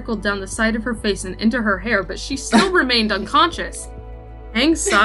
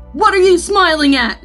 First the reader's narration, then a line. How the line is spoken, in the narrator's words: Zuko snapped harshly